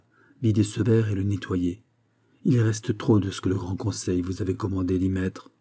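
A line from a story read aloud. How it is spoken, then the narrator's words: Quiet voice. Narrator (French): dit-il tout bas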